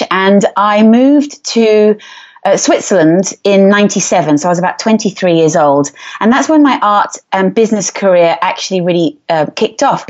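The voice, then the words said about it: English accent. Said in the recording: “As you can tell by my accent, I'm English”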